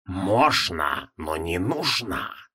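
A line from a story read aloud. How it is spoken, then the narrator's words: Hissing. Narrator (Russian): прошипел Йоксутхотх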